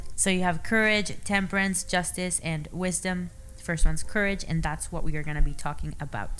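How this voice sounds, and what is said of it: Non-native English accent. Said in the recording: “I have an accent, okay? English is my second language.”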